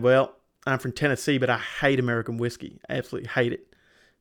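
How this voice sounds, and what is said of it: Broad Kentucky-style Southern US accent. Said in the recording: “you have to put up with a kind of broad Kentucky accent. No, you were spot on there. ... Spot on.”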